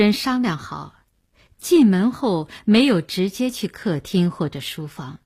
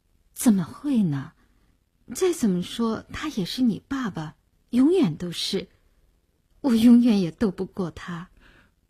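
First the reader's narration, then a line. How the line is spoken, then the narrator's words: Sighing. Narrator (Chinese): 林星摇着头叹了口气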